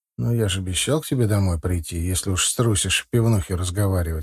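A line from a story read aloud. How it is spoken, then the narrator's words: Plain. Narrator (Russian): ответил я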